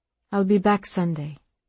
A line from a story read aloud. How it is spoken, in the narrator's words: she said quietly